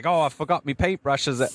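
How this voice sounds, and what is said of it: Put-on unidentified accent. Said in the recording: “I don't know what accent that is.”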